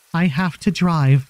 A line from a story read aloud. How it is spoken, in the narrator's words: she begged, her voice breaking